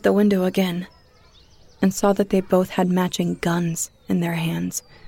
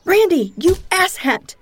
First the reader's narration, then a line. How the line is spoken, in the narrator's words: I screamed at him